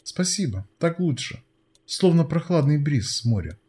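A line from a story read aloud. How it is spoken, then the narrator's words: Sigh of relief. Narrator (Russian): вздохнула свежего воздуха Фортуна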